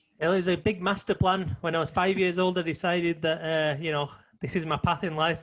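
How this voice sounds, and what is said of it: English Manchester accent. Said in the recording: “a guy with an English accent ... a man from Manchester”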